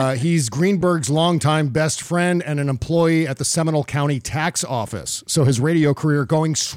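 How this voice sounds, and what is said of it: Usual voice. Nothing is said of it.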